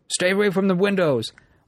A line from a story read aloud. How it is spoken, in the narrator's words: one of the men shouted